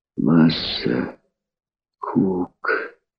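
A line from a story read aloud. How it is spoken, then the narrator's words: Sick man's sudden whisper. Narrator (Russian): Вдруг прошептал больной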